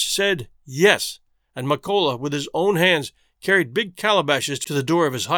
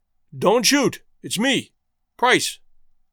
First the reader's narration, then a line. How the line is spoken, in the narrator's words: One of them cried